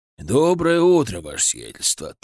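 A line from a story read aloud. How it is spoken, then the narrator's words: Solemn greeting. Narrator (Russian): торжественно приветствовал меня Игнат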